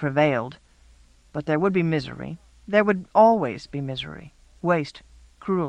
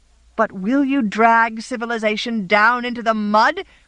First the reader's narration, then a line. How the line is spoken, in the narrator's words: cried the shocked, decent people